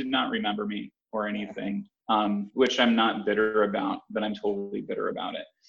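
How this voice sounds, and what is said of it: Usual voice. Nothing is said of it.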